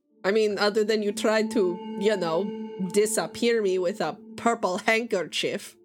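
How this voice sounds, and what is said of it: Put-on fantasy foreign accent. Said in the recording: “that Boris accent really gets to me. I can only hear it for so long... you sound exactly like them... putting on a really good impression... I thought that was an Underdark accent”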